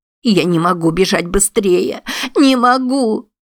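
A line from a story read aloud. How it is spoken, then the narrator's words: Sobbing, woman. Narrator (Russian): рыдала Пруденс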